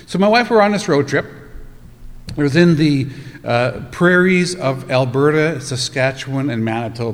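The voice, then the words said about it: Canadian accent. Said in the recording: “I'm from Canada. I don't know if you have noticed the accent or not”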